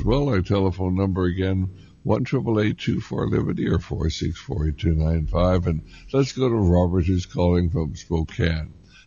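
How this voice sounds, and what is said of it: Slightly raspy voice. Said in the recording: “My voice is a little raspy. I'm just getting over a cold.”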